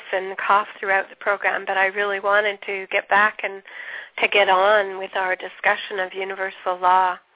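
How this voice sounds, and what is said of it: Deep voice from a cold. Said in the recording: “I have a cold. And so my apologies if I have a very deep voice”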